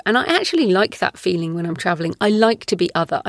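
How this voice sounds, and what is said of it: British accent. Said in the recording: “here in the UK ... people comment on my accent all the time”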